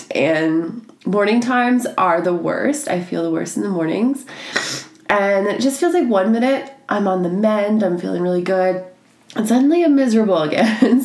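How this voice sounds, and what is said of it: Sounds sick. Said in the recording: “As you can probably tell by my voice, I'm still sick ... the longest cold”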